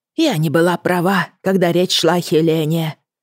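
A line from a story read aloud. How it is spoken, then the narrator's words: Whisper. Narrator (Russian): прошептала она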